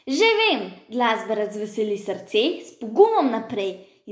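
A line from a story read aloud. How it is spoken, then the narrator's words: Bear shouting. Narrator (Slovenian): je zakričal medved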